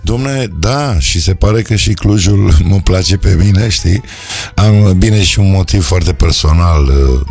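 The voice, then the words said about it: Hoarse voice, has a cold. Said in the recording (Romanian): “sunt o leacă răgușit, o leacă răcită”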